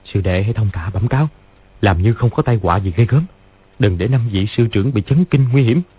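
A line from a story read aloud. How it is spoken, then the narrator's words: Soft instruction. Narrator (Vietnamese): Lý Chí Tường dặn khẽ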